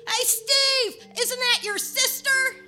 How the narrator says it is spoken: heard a voice yell

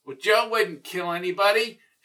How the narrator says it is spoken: shouted Larry Resnick

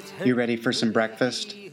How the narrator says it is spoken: asked

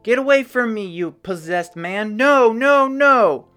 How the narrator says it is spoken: The woman screamed at the top of her lungs

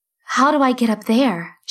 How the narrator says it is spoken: she asked him

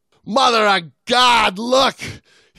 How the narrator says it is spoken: screamed above the howling of the wind

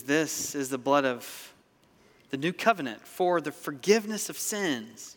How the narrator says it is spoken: Jesus says

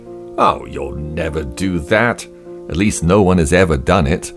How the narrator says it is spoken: Somebody scoffed

